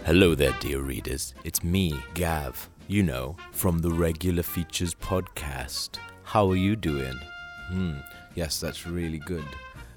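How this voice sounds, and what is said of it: Exaggerated sexy radio-host voice. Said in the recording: “doing my sexy radio voice”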